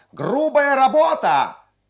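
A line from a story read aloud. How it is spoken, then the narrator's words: Shrill boy's shout. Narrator (Russian): пронзительный мальчишеский голос крикнул с галерки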